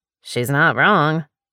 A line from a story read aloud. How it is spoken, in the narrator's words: Laurel murmured